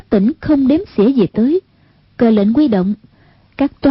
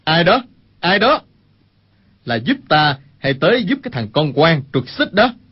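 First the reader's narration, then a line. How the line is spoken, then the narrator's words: Raised shouting voice. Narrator (Vietnamese): Sát Hợp Đài cao giọng quát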